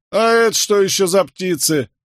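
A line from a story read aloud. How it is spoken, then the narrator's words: Mocking shout. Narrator (Russian): насмешливо крикнул один из крестьян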